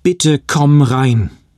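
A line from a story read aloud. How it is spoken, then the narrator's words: Sobbing. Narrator (German): Dad schluchzte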